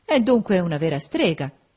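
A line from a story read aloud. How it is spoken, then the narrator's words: Exclaimed. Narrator (Italian): esclamò Federico Lynn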